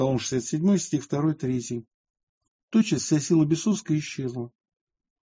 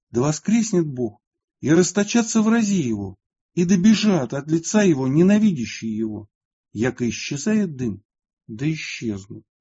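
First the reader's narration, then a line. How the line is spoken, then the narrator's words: Exclamation. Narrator (Russian): Святый воскликнул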